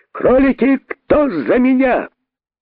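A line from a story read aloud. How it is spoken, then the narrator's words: Shout. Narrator (Russian): закричал король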